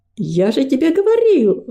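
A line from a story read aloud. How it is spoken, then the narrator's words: Exclaimed. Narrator (Russian): воскликнул Гордость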